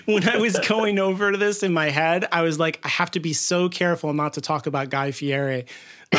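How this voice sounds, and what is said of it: Midwestern American accent. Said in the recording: “my terrible Midwestern accent”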